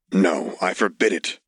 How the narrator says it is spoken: he repeated harshly

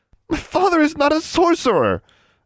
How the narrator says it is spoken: Anna cried

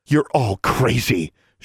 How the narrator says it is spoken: gasped

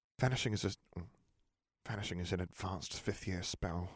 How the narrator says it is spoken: she muttered

